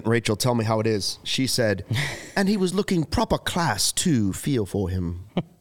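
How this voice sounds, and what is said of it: Weak put-on British accent. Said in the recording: “try my British accent. ... Probably not very good. It's not even my best effort, really. ... I give it a 6. Yeah. 6 out of 10.”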